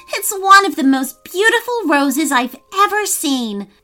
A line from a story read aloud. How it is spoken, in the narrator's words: cried Maya with delight